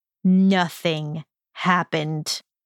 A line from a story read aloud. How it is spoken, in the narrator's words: Draco growled slowly